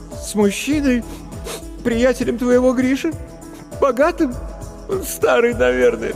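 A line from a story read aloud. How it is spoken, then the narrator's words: Sobbing. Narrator (Russian): всхлипнула Маша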